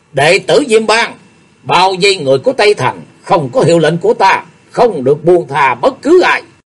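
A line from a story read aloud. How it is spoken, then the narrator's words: Loud command. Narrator (Vietnamese): Cô quát lớn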